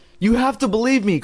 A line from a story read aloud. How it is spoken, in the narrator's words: Chris cried in a trembling voice